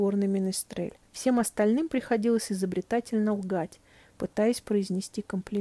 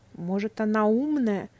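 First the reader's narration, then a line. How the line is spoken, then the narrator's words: Forced out. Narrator (Russian): выдавил из себя Грэм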